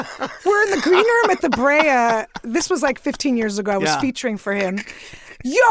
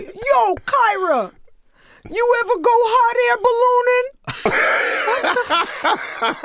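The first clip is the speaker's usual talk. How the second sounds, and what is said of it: Imitates another person's voice. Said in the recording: “Can I give you my Tracy Morgan?”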